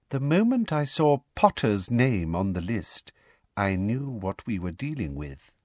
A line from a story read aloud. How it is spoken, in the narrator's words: she said softly